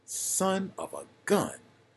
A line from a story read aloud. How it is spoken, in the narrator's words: he exclaimed to his passenger